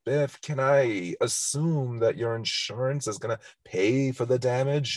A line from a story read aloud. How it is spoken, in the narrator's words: George McFly tries very feebly to say to him